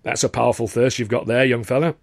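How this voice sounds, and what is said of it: Thick, hard-to-place accent. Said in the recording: “a voice with a thick sort of accent I couldn't quite place”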